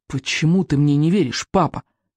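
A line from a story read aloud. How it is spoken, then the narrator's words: Angry exclamation. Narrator (Russian): сердито воскликнул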